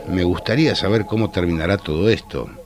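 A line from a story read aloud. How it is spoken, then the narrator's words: Plain. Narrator (Spanish): dijo el cocinero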